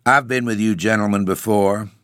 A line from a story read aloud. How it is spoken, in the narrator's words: he began in a dry, even tone